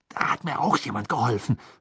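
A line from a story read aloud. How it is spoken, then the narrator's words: Snarling. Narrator (German): fauchte Harry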